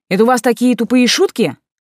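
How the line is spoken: Sharp, aggressive question. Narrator (Russian): резко с наездом спросила я

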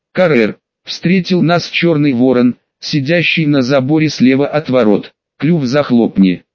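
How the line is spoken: Plain. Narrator (Russian): ответил я

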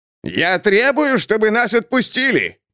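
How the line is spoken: Man shouting from behind. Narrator (Russian): прокричал человек где-то позади

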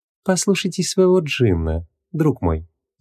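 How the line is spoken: Ringing, gentle woman's voice. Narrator (Russian): звенящим голоском посоветовала дама, ласково улыбаясь

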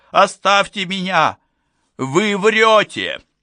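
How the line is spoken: Woman screaming hoarsely. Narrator (Russian): Я кричала так громко, что заболело горло, но все равно едва себя слышала

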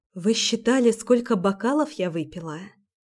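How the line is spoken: Quiet. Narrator (Russian): Тихо говорю я

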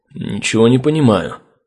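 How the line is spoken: Muttering ranger. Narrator (Russian): пробормотал рейнджер

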